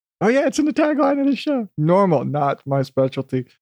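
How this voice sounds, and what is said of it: Huckleberry Hound-like cartoon voice. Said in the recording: “I don't know why I just keep defaulting to this accent ... It's almost like a Huckleberry Hound ... I'm pretty sure I got the voice wrong ... I think this is Leo the Lion”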